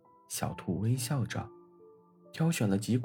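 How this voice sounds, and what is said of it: Usual voice. Nothing is said of it.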